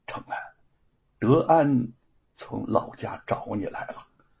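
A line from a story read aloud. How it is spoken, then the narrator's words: Slow. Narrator (Chinese): 沈坤缓缓的说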